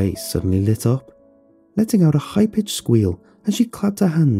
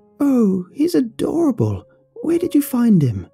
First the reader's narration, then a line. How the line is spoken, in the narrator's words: she exclaimed